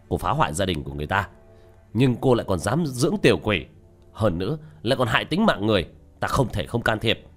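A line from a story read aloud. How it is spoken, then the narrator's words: Angry shout. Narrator (Vietnamese): Tiểu Thất vỗ bàn đứng dậy quát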